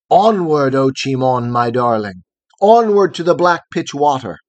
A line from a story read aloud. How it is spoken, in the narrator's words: Hiawatha cried exulting